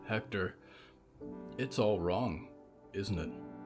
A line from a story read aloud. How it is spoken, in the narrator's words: Jonah asked quietly